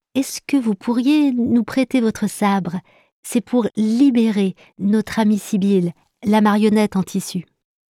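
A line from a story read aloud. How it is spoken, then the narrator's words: Timid question. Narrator (French): demande-t-elle timidement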